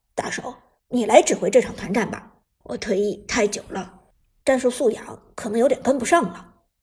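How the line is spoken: Low voice after a cough. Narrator (Chinese): 老万咳嗽一声，沉声说道

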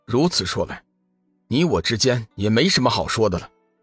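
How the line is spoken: Cold. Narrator (Chinese): 龙宇冷声道

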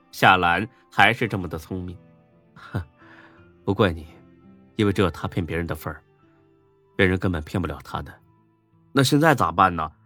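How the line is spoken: Wry laugh. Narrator (Chinese): 孙志苦笑一声

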